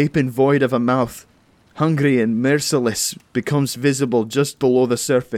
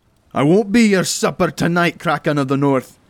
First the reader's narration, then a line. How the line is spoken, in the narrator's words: I shout loud